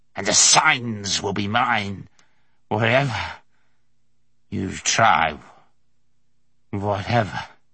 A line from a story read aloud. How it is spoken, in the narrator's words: he spat out at him